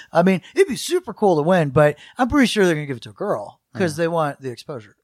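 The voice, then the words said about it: Surfer-like accent. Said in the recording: “I wonder where this accent is... you have this like surfer.”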